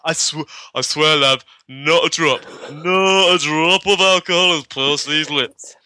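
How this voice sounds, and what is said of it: Vague put-on Leeds-style accent. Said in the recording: “I'm not sure he's from Leeds ... I don't even know what accent I was going for ... I have no idea what the accent was either”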